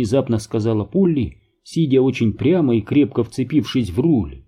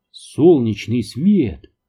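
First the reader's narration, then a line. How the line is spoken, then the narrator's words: Exclaiming. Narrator (Russian): воскликнул Крейн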